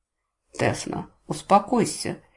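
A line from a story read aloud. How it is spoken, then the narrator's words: Templar's quiet rebuke. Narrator (Russian): негромко осадил храмовник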